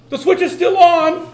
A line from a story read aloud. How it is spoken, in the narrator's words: shout